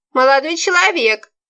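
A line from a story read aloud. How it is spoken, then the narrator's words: Old woman shouting irritably. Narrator (Russian): кричала старуха, которая услышала грохот и, естественно, не смогла стерпеть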